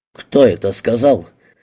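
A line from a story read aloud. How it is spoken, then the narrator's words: Roared. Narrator (Russian): взревел полковник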